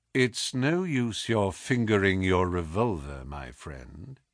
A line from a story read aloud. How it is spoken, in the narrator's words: he said in a quiet voice